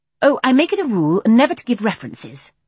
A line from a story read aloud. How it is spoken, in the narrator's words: said the other firmly